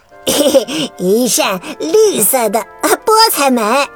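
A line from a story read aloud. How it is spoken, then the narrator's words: Laughing. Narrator (Chinese): 艾瑞克笑着说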